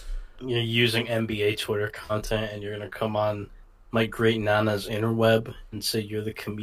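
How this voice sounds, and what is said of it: Usual voice. Nothing is said of it.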